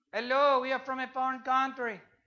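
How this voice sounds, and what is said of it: Bad put-on foreign accent. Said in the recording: “what kind of accent is that? A bad one.”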